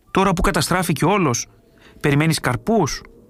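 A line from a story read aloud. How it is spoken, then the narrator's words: Angry. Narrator (Greek): Ο άλλος όμως, που δεν καταλάβαινε, του είπε θυμωμένα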